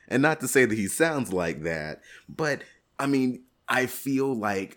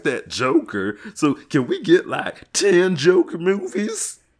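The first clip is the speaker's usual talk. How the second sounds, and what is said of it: Wild, crazy Joker character voice. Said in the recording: “What was that voice you just made? ... That, dear lady, was the wild and crazy Joker”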